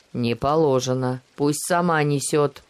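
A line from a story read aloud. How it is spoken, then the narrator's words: Angry. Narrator (Russian): зло сверкнул глазами солдат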